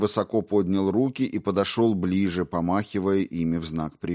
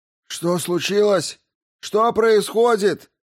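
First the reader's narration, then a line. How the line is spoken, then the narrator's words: Shouted. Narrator (Russian): прокричал он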